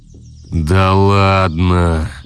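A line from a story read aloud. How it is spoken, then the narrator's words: Disbelieving drawl. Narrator (Russian): Неверяще протянул Дементьев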